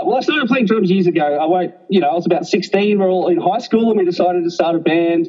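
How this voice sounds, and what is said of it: Australian accent. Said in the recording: “as you can tell by my accent. I'm Australian.”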